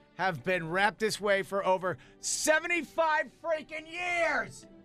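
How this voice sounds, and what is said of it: Yelling, worked-up voice. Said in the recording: “Why are you yelling? ... Why are you getting worked up over this?”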